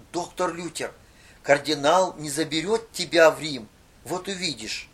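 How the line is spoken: Quiet voice. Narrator (Russian): кто-то тихо сказал

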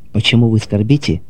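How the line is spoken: Soft, sympathetic question. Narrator (Russian): спросил он мягким, участливым голосом

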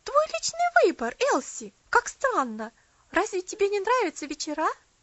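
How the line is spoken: Exclaimed. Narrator (Russian): Мэри Лесли воскликнула

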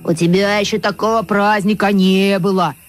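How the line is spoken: Deep bass voice. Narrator (Russian): басил тот

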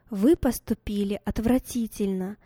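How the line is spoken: Plain. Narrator (Russian): сказала мама

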